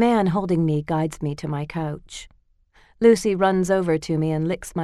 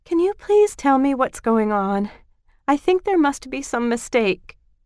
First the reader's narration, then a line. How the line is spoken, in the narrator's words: say shakily